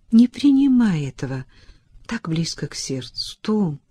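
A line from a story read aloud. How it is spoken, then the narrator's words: Soft. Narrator (Russian): мягко произнесла она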